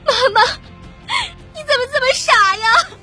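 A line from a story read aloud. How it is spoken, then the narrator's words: Sobbing. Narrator (Chinese): 哭得晕了过去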